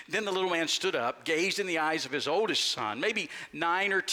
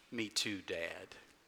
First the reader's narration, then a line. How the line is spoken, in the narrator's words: His son smiled somewhat shyly, averted his eyes, and replied softly